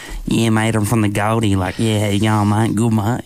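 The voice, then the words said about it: Nasal East Coast Australian accent. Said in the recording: “In the East Coast, it's very like nasally, you know, nasally”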